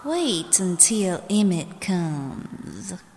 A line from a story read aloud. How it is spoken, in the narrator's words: he said quietly